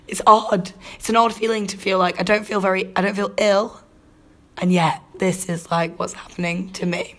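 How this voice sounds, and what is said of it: Husky, nearly lost voice. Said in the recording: “I'm a bit ill. Under the weather ... this sexy voice ... Absolute husky, sexy voice ... completely losing my voice”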